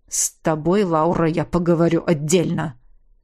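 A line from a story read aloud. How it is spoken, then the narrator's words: Dragon's growl. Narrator (Russian): Рыкнул дракон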